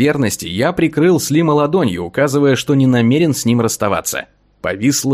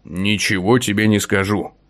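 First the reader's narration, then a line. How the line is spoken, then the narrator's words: Growled without turning. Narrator (Russian): не оборачиваясь, рыкнул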